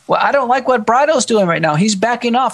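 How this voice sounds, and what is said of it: Texan accent. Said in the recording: “you sound like a Texan.”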